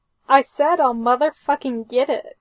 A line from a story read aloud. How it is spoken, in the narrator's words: Frank snaps